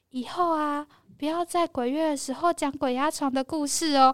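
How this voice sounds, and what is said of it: Small whispered voice. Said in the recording (Chinese): “我就听到一句小小声的声音在我耳边旁边说”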